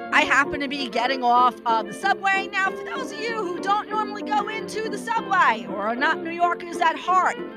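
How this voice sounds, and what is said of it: Brooklyn New York accent. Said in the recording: “That's where the accent comes from. I'm originally from Brooklyn”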